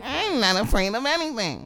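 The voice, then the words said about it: Nasal nerdy little girl voice. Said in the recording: “doing the nasally voice... You're not just doing a little girl... You're doing a typical like nerdy voice.”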